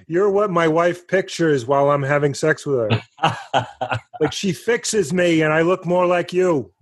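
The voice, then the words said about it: Pretty good Ray Romano impression. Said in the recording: “That's a pretty good Ray Romano impression.”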